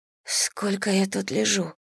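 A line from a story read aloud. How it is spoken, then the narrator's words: Hoarse question. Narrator (Russian): спросила хрипло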